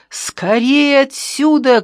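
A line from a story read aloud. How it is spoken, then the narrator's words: Shout. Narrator (Russian): крикнул Ящиков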